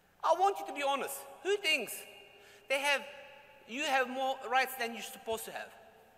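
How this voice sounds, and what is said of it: Non-native mixed accent English. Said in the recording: “Probably you notice from my accent ... this guy has an accent ... Turkish parents, born in Germany, living in Australia, now moved to Dubai. This is what's coming out.”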